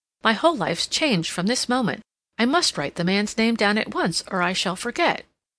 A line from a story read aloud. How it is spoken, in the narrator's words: Cassandra exclaimed